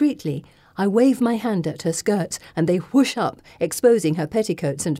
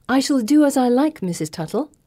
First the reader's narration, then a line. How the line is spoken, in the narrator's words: I say sweetly